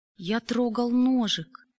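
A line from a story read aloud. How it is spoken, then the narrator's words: Fearful, strained. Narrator (Russian): потея от страха, выдавил добрососедский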